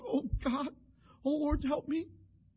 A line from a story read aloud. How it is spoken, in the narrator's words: Mona's cried out